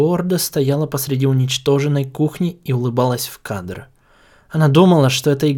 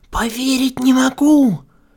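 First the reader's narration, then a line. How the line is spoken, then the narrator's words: Forced out with effort. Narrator (Russian): Бон-Бон с трудом пересилила себя, чтобы выдавить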